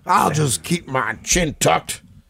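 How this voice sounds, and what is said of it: Weak imitation with a country accent. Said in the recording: “I'm trying to do like a country... not the best Robbie Lawler impression I've ever heard”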